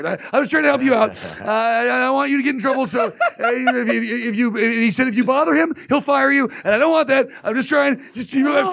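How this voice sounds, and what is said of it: Impression of a drug addict. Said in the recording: “great junkie impression”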